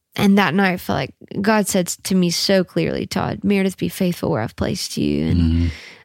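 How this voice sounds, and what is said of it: Emotional, choked-up voice. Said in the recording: “You're getting emotional. ... I'm sorry, I'm getting so emotional.”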